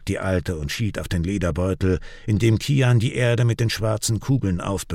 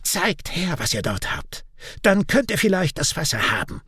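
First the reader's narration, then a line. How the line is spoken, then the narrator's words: Croaking. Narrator (German): krächzt sie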